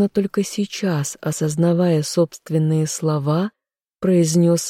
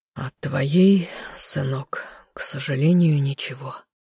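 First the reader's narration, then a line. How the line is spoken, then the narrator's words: Sighing man. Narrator (Russian): вздохнул мужчина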